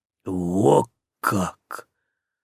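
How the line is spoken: Breathed out. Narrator (Russian): выдохнул Зерон

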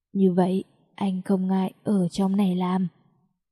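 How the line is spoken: Slow deep husky voice. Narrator (Vietnamese): chậm rãi dùng giọng nói trầm thấp mà có chút khàn khàn của anh nói với tôi

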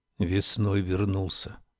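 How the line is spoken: Quiet. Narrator (Russian): тихо сказал Лоуренс

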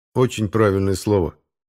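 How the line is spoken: Plain. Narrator (Russian): сказал им я

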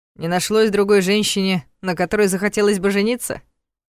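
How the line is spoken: Scoffing. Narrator (Russian): хмыкнул Ваня

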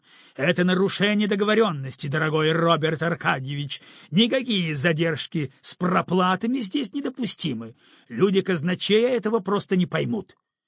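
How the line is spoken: Angry voice. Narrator (Russian): злым голосом

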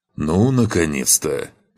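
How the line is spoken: Grumbling. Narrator (Russian): проворчал павший

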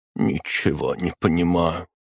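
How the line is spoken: Muttered. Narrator (Russian): пробормотала она

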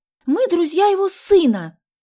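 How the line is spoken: Impatient exclamation. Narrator (Russian): нетерпеливо воскликнула Соня

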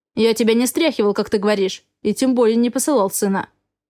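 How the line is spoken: Calm. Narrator (Russian): ответил он спокойно

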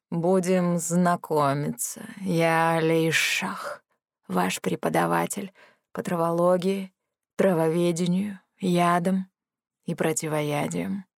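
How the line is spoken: Gloomy introduction. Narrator (Russian): мрачно представился этот хвостатый товарищ

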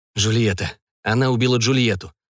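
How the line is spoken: Vampire hoarse rasp. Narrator (Russian): прохрипел вампир

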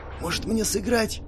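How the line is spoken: Whispered question. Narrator (Russian): шепотом уточнил Элмерик

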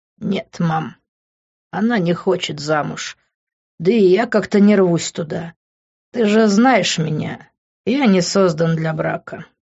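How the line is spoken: Sad reply. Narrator (Russian): печально ответил

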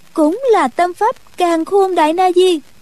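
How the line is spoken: Involuntary blurted exclamation. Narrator (Vietnamese): nàng bất giác buộc miệng kêu lên

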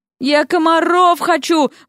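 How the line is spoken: Wailing. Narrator (Russian): взвыла Вася

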